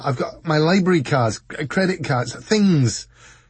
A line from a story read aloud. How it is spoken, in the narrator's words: he added desperately